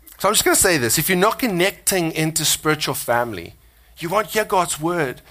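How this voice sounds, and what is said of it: South African accent. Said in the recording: “my South Africanness, you know, my accent”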